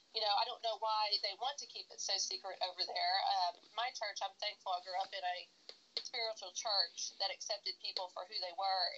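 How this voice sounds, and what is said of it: Congested voice from a cold. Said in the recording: “I'm sick. I have a cold,”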